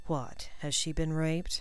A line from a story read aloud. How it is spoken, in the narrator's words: Draco asked blandly